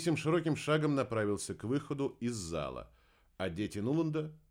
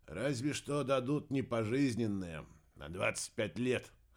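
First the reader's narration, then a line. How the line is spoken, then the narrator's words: Snorting, wry. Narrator (Russian): хмыкнул Кеннет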